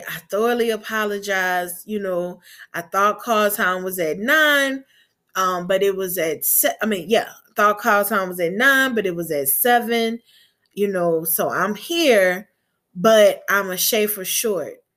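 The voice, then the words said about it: Gulf Coast Southern accent. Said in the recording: “she heard my accent, and I was like, Well, I'm from the Gulf Coast.”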